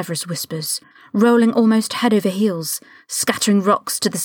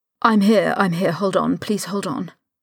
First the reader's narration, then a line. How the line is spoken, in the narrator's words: Severus mutters